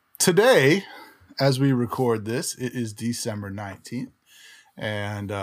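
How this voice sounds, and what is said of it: Usual voice. Nothing is said of it.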